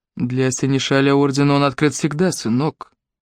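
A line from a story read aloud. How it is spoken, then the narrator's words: Soft. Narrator (Russian): мягко проговорил Джеб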